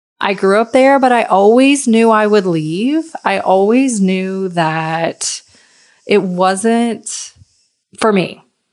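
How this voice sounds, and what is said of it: Slight Southern US accent. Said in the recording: “I'm from a really small town in Virginia. I'm sure you can probably hear the accent. It's a little southern.”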